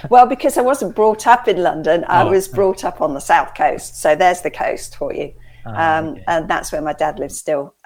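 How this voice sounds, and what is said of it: Mild southern English Sussex accent. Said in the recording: “it's not very posh ... it's a Sussex accent, which is kind of London light”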